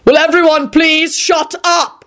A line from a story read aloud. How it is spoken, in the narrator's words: Quentin shouted